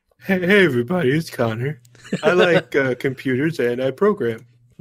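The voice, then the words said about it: Imitates another person's voice. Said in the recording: “That wasn't a bad imitation there.”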